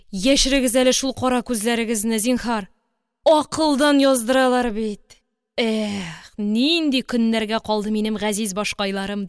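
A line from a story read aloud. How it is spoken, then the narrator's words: Deep sigh. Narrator (Kazakh): деп тирән етіп күрсінді артист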